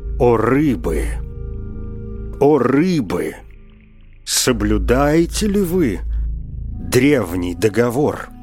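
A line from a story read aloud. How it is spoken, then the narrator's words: Menacing voice. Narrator (Russian): раб сказал устрашающим голосом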